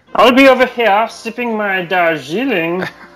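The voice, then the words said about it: Kermit voice with British accent. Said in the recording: “Can you do Kermit doing a British accent saying that? ... That was British Kermit.”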